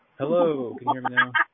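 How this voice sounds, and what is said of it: Imitates another person's voice. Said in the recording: “I'm trying to do a mesh impression”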